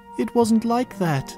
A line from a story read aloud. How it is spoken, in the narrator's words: whimper